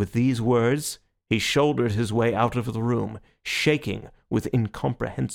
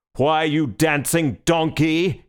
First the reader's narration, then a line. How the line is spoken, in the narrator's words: he roared